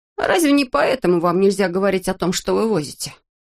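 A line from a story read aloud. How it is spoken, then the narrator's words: Sighing. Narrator (Russian): Штурман вздохнул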